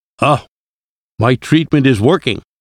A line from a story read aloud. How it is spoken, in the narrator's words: the professor cried